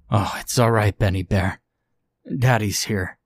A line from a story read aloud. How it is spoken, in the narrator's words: wept